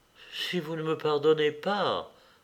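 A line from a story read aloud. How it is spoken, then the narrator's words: Murmured. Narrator (French): murmura-t-il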